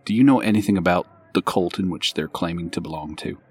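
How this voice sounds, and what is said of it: Whispering. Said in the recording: “this is whispering, obviously”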